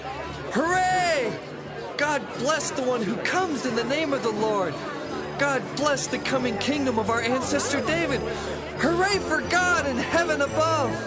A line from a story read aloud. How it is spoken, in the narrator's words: people went along shouting